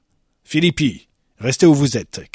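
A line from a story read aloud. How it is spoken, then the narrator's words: Director shouting. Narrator (French): cria le directeur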